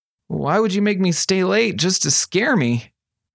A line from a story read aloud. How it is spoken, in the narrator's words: Jennifer Tanaka groaned